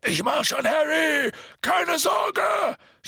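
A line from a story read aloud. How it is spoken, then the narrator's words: Shouting. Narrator (German): schrie Hagrid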